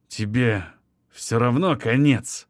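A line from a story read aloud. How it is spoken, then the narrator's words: Through gritted teeth. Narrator (Russian): сквозь зубы выговорил он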